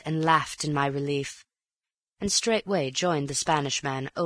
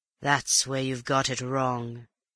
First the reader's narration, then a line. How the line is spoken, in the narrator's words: snarled